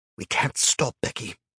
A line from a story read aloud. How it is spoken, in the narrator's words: hissed, terrified as much as she was